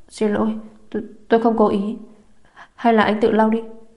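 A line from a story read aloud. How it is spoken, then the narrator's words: Panicked stammering. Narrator (Vietnamese): Chu Thiến bị anh nhìn mà hoảng loạn, lắp bắp nói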